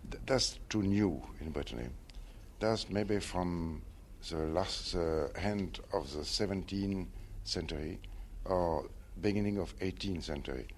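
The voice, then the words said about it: Non-native English accent. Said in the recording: “poor accent.”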